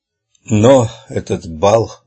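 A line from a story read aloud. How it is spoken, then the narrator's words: Breathy. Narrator (Russian): выдохнул он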